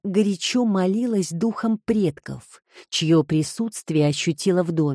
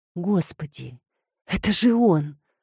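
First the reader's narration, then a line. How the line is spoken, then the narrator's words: Stunned whisper. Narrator (Russian): пораженно прошептала Филомена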